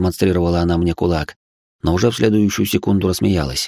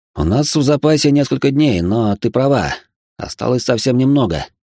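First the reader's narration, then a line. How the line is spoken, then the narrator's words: Breathy exhale. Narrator (Russian): выдохнул я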